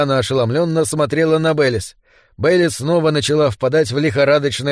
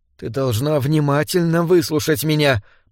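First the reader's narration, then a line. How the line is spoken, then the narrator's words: Muttering. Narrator (Russian): пробормотала она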